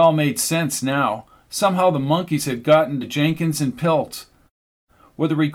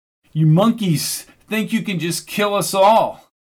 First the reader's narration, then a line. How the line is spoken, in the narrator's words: shouted